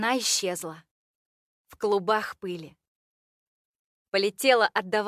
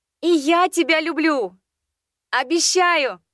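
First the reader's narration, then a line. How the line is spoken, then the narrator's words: Shouted reply. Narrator (Russian): крикнула я в ответ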